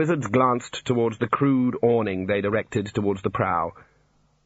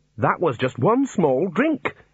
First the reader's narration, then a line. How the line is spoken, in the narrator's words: the Dean snapped